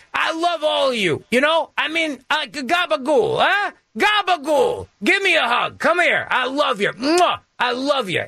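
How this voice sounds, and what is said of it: Mock Italian accent. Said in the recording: “You start breaking out the accents. It's like all of a sudden the Italians do this.”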